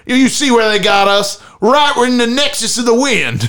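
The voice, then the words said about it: Exaggerated rural southern-style accent. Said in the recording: “you put on kind of a southern accent for Iowa ... Rural accent ... it's a rural accent. It's probably not as exaggerated as that is”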